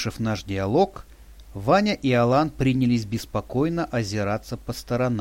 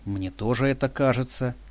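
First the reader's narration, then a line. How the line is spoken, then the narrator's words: Said quietly. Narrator (Russian): тихо произнесла она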